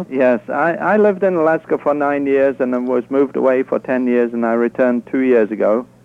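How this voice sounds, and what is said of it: English accent. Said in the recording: “You can tell by ... accent that he's not was not born in Alaska ... He sounds like Denmark ... No, I'm from England originally.”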